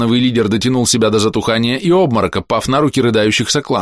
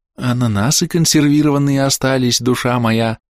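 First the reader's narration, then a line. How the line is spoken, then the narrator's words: Cooing. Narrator (Russian): проворковал я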